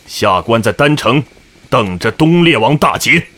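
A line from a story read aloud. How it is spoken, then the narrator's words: Deep solemn voice. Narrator (Chinese): 官员沉声说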